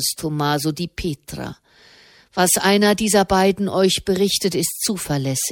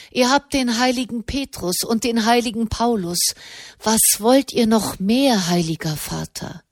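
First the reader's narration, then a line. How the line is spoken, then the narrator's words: Sighing. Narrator (German): Wieder seufzte er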